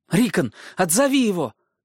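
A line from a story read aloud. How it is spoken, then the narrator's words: Shouting to little brother. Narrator (Russian): крикнул Бран своему маленькому брату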